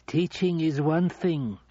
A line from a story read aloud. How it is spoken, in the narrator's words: she said